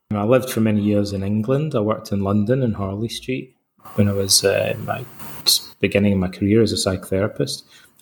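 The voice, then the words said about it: Scottish accent. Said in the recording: “I'm Scottish, as you can probably tell from my accent”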